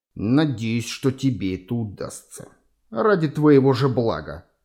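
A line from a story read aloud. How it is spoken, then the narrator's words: Hissed through teeth. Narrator (Russian): процедил эсэсовец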